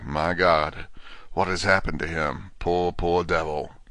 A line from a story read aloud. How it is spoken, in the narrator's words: When Quincy saw the attitude and state of the patient, and noted the horrible pool on the floor, he said softly